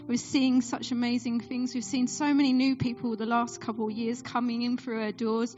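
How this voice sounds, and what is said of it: Essex English accent. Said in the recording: “you might hear in my accent, I'm not originally from Suffolk. I'm from Essex”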